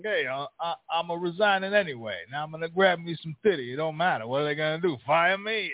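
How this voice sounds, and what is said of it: Put-on New York Italian accent. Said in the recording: “I wasn't really doing a real impersonation. I was trying to do some New York Italian guy.”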